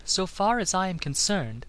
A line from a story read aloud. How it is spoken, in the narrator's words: said the girl coolly